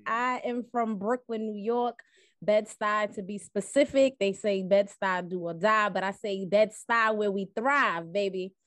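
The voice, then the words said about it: East Coast American accent. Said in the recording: “I hear that East Coast accent”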